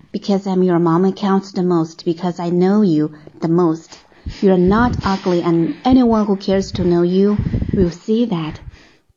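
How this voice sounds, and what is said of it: Movie-dub style imitation of a comforting mother. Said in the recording (Chinese): “发音实在是太好听了，特别是 ... 的发音呢，是真的是可以给电影配音的那种 ... 模仿的是一部电影当中的妈妈去安慰和鼓励孩子的话”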